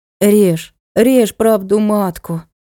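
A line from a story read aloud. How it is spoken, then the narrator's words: Gloomy permission. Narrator (Russian): уныло разрешила Надка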